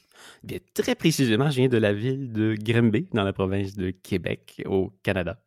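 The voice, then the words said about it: Sing-song Québécois French accent. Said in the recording (French): “joli accent chanteur”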